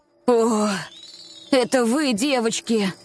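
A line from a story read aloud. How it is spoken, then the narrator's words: Relieved sigh. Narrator (Russian): С облегчением вздохнул Астер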